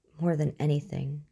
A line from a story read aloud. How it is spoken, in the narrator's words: said, her voice tremulous